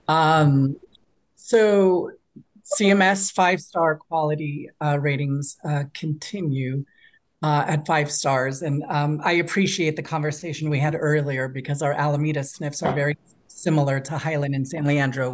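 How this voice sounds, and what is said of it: Hoarse, fading voice. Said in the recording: “I'm starting to lose my voice,”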